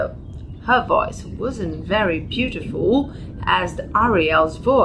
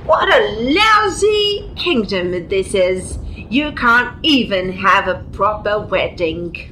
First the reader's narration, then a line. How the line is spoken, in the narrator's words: The princess, the arrogant princess that Prince was going to marry, shouted in a gruff, harsh voice